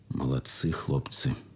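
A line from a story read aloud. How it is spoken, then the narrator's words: Quiet. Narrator (Russian): тихо сказал парторг полка капитан Тыртычный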